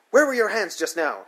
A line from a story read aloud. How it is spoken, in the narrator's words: she demands, hotly